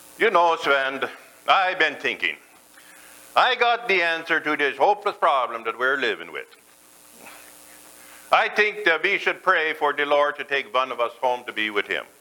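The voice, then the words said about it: Put-on Norwegian accent. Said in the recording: “I'm going to try the best to do my Norwegian accent. ... my best Norwegian accent”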